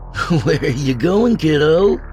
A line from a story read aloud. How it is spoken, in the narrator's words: Billy laughed